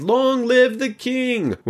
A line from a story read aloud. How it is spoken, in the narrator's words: They cried